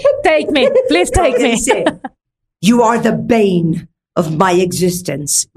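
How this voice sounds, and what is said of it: Put-on English accent. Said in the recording (Spanish): “en ese acento ... inglés.”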